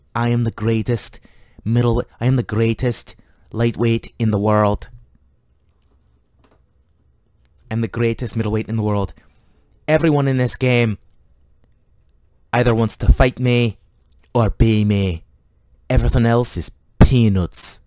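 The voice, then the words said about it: Poor put-on Irish accent. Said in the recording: “My shitty Irish accent”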